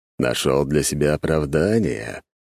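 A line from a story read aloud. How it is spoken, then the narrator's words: Displeased grumble. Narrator (Russian): недовольно пробурчал Дориан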